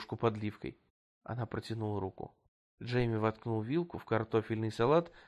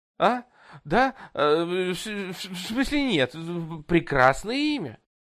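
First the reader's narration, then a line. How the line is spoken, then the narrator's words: Spluttering babble. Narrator (Russian): Пролепетал, брызгая при этом слюной Джейми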